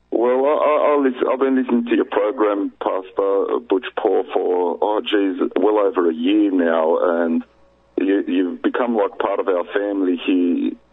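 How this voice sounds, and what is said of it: Australian accent. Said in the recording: “I'm originally from Sydney, Australia ... we couldn't have told that by your accent at all”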